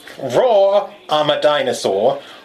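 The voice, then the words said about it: Attempted British accent, sounds Australian. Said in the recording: “you gotta read it in a British accent... That was like an Australian accent.”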